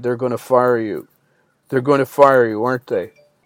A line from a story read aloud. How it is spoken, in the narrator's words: sighed